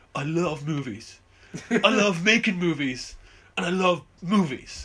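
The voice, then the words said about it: Poor Keanu Reeves impression. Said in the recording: “That's a terrible Keanu impression. ... it's terrible Keanu”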